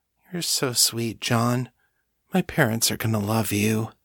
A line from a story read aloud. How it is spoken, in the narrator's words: with Kate drifting off under the influence of John's feeding, she murmurs